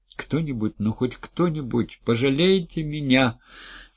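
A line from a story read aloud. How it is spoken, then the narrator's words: Sobbing, inconsolable crying. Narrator (Russian): всхлипнула Зоя и безутешно разрыдалась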